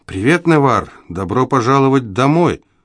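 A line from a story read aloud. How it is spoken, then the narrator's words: Even tone. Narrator (Russian): ровным тоном произнесла Элиси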